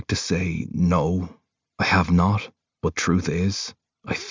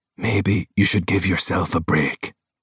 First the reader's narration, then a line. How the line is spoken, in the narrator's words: Rowan whispers in my ear